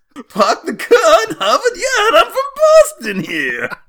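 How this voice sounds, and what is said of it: Sharp, high-pitched put-on accent. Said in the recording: “the voice keeps getting sharper and higher. It's going to be incomprehensible soon.”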